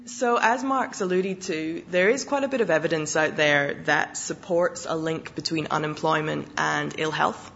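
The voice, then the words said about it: Husky, slightly hoarse voice. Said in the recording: “losing my voice, so I'll go with being husky rather than hoarse.”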